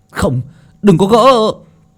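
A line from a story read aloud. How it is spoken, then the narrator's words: Group shouting. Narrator (Vietnamese): những người khác hét lên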